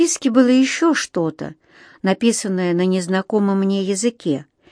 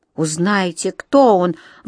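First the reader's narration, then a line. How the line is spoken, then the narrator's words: Exclaiming. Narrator (Russian): воскликнул Юнатан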